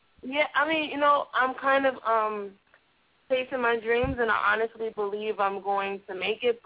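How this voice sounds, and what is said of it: New York accent. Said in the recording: “I just recently moved to Los Angeles from New York City. ... you haven't lost your accent,”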